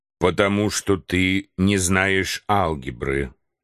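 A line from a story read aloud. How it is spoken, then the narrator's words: Calm answer. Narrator (Russian): спокойно ответил Барбекен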